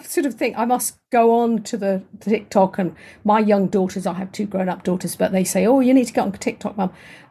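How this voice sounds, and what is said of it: Soft, quiet southern English accent. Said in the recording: “I'm from southern England, so my voice is quite quiet ... my voice naturally is a quiet English voice ... It's like the Queen. ... Very soft”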